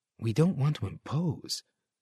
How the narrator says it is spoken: Sylvia murmured

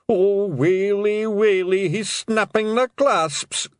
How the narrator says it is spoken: groaned Daft Woolley

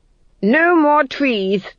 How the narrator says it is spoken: shouted Felmet

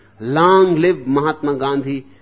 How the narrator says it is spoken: an Indian politician screamed

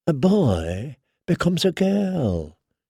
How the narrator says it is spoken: murmured

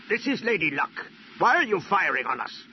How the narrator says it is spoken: Lando replied fiercely

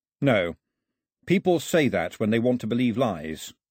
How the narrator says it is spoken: Mao said flatly

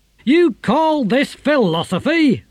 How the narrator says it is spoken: roared Didactylus

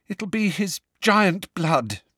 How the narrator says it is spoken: said Hermione shakily

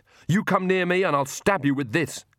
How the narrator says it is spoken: she shouted

